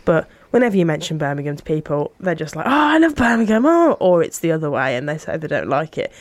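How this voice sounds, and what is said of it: Birmingham (Brummie) English accent. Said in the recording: “sounding like a Brummie, because I'm aware that I don't have the yam yam accent”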